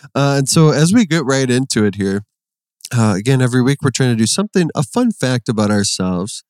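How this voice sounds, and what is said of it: Usual voice. Nothing is said of it.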